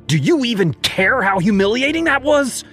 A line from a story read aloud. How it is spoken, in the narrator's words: she yelled